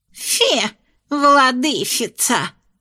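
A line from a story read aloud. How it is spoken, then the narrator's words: Lisping ghost. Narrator (Russian): прошепелявил оставшийся призрак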